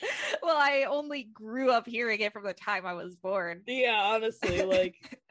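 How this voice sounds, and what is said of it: Usual voice. Nothing is said of it.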